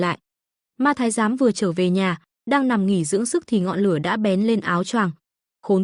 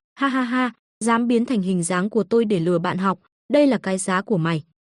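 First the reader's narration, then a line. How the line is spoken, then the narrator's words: Loud mocking laughter. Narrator (Vietnamese): Quý Hành không nể nang gì cười to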